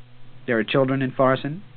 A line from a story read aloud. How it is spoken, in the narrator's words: the cook asked sadly